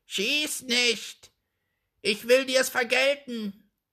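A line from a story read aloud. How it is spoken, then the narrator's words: Called out. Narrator (German): rief der Rabe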